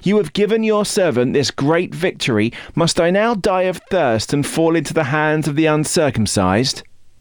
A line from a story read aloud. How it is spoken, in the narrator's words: Because he was very thirsty, he cried out to the Lord